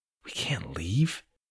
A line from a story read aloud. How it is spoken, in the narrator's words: he said under his breath